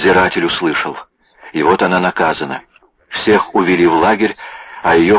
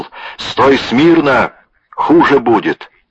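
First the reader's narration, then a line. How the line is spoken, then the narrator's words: Watchman shouting. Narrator (Russian): Вахтер крикнул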